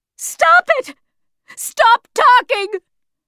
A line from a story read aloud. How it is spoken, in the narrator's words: screamed Yanina's mother